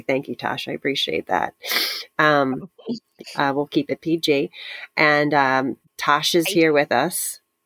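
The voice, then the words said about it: Altered, husky-sounding voice. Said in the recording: “I sound different today, everyone listening. This may be a few episodes of me sounding like this ... it is her sexy voice”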